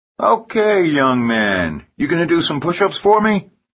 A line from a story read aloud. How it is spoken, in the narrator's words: he shouts